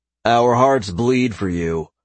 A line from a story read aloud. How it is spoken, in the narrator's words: Caden replied